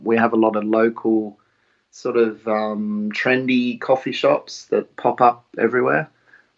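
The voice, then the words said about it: Australian accent. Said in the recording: “You can probably tell by the accent, I was born in Australia and grew up in Australia.”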